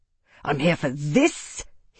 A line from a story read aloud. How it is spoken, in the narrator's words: he snarled